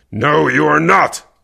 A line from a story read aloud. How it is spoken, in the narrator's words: Kervec growled